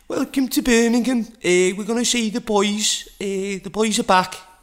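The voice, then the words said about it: Put-on Scouse accent. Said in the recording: “I'm going a bit scouse now... those horrid accents”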